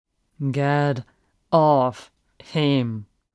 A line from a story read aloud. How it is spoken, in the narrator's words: the figure enunciates